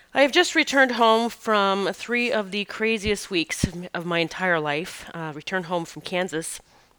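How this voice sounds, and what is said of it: Deeper, rougher voice than usual. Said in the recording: “my voice is a little, it sounds a little deeper to me, a little rougher”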